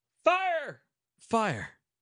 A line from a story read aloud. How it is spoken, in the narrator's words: Other voices caught up that terrible word, and it speedily became the shout of a multitude